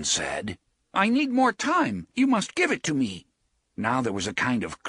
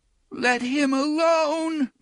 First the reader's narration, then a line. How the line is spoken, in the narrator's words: moaned the voice of little Blaine